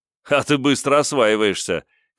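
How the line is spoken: Surprised chuckle. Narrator (Russian): Кенджи хохотнул от неожиданности

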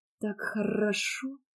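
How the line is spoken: Moaning. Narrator (Russian): простонала

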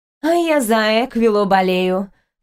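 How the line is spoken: Snorting. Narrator (Russian): фыркнула самая красивая лойна Нитенси

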